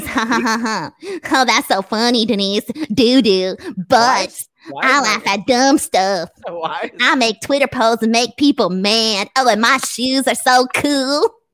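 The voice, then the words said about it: Imitates another person's voice. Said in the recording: “impersonating me”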